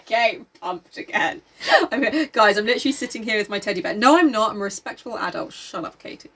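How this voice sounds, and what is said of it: Screaming excitedly. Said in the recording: “you're screaming.”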